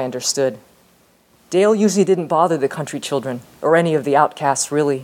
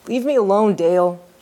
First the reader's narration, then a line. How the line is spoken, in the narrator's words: he said miserably